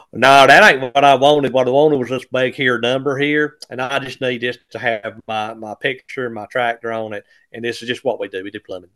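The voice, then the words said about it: Put-on rural Johnston County accent. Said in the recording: “pardon me doing the Johnston County accent.”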